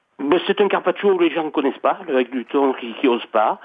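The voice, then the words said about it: Slight southern French accent. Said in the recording (French): “Il vient d'où votre petit accent ? ... Du sud de Nice.”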